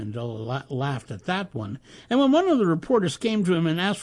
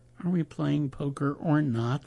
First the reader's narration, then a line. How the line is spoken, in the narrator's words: groaned one of the players